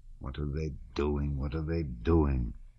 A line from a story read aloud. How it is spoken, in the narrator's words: he murmured to himself